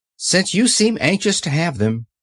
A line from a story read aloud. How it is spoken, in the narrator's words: said Dorothy earnestly